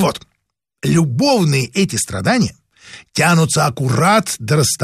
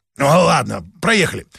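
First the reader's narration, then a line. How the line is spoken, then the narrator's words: Dismissive grunt. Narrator (Russian): хмыкнул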